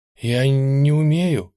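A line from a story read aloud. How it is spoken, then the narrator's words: Breathless, about to burst. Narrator (Russian): выдохнула я, как будто вот-вот лопну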